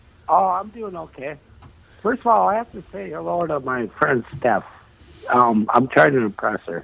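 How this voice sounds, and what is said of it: Usual voice. Nothing is said of it.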